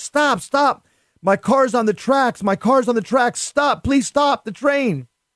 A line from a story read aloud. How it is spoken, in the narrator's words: my father yelling in Spanish